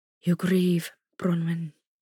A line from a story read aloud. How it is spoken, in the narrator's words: he said quietly